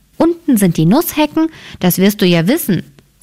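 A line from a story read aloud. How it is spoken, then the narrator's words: Plain. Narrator (German): sagte Rotkäppchen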